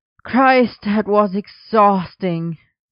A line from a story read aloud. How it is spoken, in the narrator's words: Merlin groaned in greeting